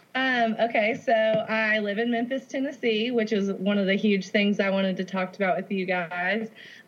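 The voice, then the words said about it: Mild Southern US accent. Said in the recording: “you say accent, you go, like, accent. And it's so cute, but it's, like, yours it definitely isn't as thick as, like, some people I've heard, like, from Louisiana ... I understand your accent, and it's so adorable ... a little Southern drawl”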